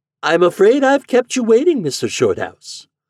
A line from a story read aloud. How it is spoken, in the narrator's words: he said in a pleasant voice